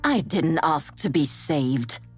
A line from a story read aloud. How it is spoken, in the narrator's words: she says bitterly